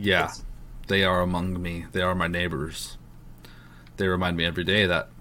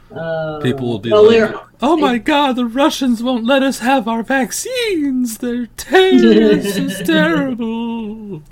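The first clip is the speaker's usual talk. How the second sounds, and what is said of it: Hysterical, exaggerated mocking character voice. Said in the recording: “You did that really well. ... My hysterical liberal impression?”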